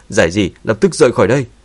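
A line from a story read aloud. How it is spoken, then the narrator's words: Alarmed urgent shout. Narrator (Vietnamese): Sắc mặt của Dương Chấn thay đổi, vội vàng hét lớn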